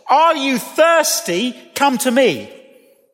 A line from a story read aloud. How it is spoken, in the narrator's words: A man shouts